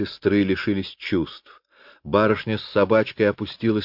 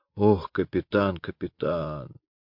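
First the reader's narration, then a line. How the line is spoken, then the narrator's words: Groaning corporal. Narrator (Russian): капрал простонал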